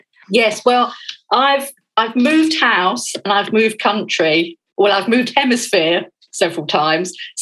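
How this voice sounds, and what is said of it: Slight English accent. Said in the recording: “I can obviously tell from your accent that you weren't born here. There's just a wee tang there that says to me you're not a born Kiwi ... I was born and grew up in London”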